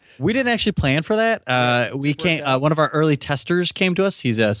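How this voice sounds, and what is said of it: Usual voice. Nothing is said of it.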